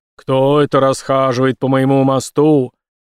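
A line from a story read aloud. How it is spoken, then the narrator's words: Low menacing bass. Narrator (Russian): Низким угрожающим голосом Брейс пробасил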